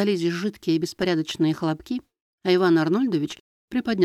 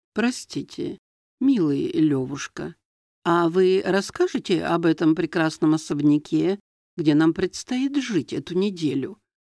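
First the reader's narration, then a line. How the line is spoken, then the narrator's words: Creaky voice from corner. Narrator (Russian): проскрипела из темного угла под торшером Эмма Генриховна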